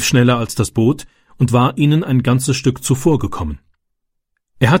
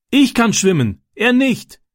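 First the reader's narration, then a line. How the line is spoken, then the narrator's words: Calling back. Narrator (German): rief Francis zurück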